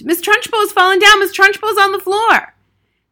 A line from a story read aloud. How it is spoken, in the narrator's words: Wilfred screamed